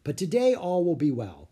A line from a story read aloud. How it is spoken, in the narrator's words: Leonardo said cheerfully